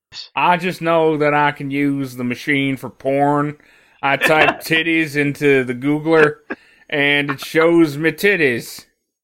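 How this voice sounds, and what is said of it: Vaguely Amish drawl accent. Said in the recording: “my accent got vaguely Amish towards the end of that ... they got a bit of a drawl”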